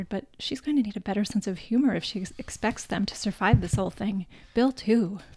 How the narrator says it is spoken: she whispered

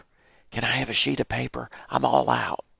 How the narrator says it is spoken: I heard Stephen Hansen whisper

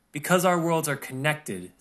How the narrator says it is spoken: Seraphina explained, her voice filled with conviction

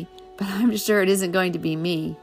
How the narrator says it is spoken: laughed Billy

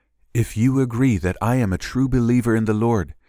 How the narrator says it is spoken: she said

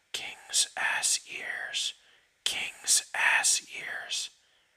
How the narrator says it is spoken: a piece of echo whispering over and over

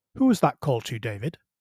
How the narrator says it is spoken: asked rather sharply

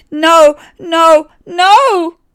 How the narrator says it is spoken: yelled David

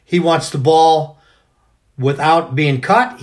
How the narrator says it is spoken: he yells

